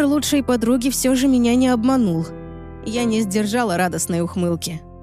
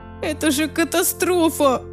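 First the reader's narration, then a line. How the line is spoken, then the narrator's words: Moaning. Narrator (Russian): простонала Лизи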